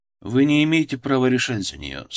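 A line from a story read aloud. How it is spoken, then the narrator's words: Even, level voice. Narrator (Russian): сказал ровным голосом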